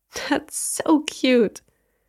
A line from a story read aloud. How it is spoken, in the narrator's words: She laughed again